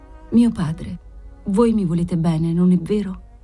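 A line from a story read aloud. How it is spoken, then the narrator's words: Very tender voice. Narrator (Italian): Bianca Maria con una tenerissima voce gli disse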